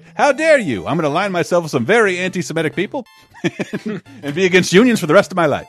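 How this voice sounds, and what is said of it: Impression with mid-Atlantic accent. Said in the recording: “your Walt Disney impression. Very mid-Atlantic.”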